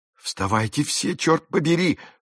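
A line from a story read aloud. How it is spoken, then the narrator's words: Whisper-yelled. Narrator (Russian): шепотом завопил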